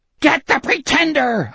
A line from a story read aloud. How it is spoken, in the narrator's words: Osmond was shrieking